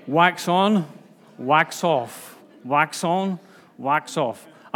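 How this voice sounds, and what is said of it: Put-on accent imitating Mr. Miyagi. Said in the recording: “I'm going to get into trouble for doing accents... Mr. Miyagi”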